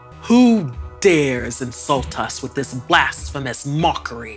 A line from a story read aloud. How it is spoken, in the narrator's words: His roar